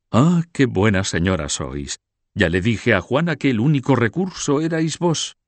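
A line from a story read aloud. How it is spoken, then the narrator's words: Exclaiming. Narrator (Spanish): la de Mao exclamando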